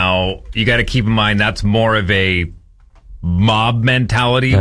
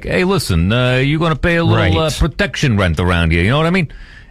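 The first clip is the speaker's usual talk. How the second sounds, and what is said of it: Movie mobster voice. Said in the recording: “I'm doing the voice because that's what you hear in the movies.”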